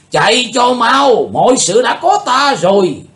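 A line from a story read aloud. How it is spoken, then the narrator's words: Commanding shout. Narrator (Vietnamese): Tà thần lỗ đạo chợt thấy Chí Tôn vượt ra ngoài vòng kiềm tỏa của bọn cao thủ U Minh Cung liền quát lên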